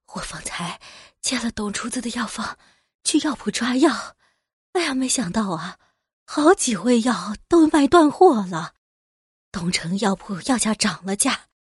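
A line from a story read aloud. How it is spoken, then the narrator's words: Breathless sighing old woman. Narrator (Chinese): 一位婆子急忙跑了过来，气喘吁吁的朝田婶子叹气道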